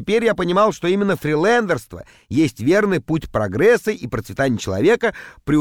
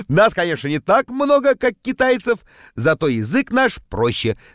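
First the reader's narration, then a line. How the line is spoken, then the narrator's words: Laughing. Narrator (Russian): смеялся я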